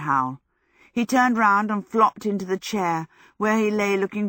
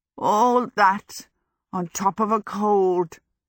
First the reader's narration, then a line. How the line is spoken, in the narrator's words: he croaked